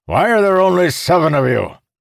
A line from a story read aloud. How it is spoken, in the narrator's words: Calamir barked